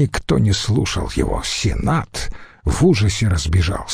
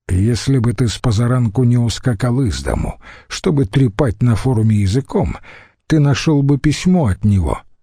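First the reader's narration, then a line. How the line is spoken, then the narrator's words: Calm remark. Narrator (Russian): спокойно заметил Антоний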